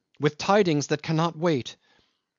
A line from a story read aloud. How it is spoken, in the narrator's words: cried